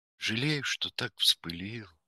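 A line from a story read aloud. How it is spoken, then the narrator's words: Gentle speech. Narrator (Russian): ласково говорил мсье Пьер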